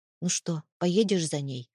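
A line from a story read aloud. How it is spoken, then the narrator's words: Calm. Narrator (Russian): спросил Антонов спокойно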